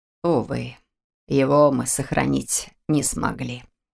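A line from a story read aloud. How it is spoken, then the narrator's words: Calm reply. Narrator (Russian): спокойно ответил Антуан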